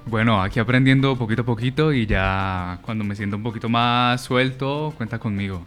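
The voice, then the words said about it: Deep, fresh announcer-like voice. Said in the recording (Spanish): “tiene esa voz de locutor ... Uy, el hombre la tiene ... Tiene muy buena voz fresca el muchacho.”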